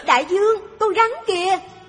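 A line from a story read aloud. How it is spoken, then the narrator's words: Feigned panicked cry. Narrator (Vietnamese): Magandhya làm như bất ngờ thấy con rắn, hoảng hốt la lên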